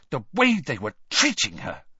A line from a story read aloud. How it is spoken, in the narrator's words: said Hermione furiously